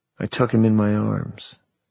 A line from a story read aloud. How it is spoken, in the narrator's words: I whispered